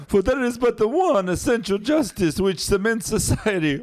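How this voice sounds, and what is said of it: Exaggerated bad Italian accent. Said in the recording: “I'll do it in a horrible Italian accent ... I know it's also shitty Dracula.”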